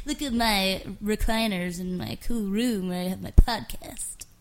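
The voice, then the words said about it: Poor impression of co-host. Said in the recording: “that impression. That's not a very good impression of me.”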